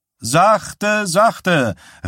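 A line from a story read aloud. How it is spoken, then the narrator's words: Calling out. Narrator (German): rief Sam Wysack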